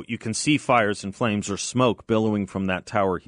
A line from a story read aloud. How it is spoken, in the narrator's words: he said